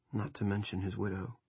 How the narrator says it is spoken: Rusty said softly

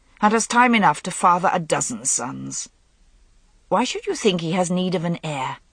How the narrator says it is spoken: Morgause said coldly

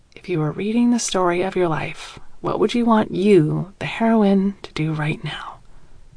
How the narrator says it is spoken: My throat tightens, whisper

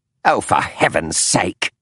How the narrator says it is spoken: snapped the woman

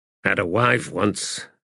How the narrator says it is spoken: Mathok muttered

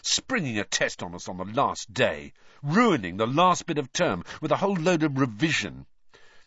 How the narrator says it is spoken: Ron said bitterly

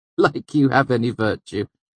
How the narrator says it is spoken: she laughed

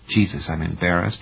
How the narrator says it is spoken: Lanier muttered

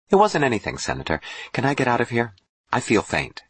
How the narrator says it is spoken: Jill said quickly

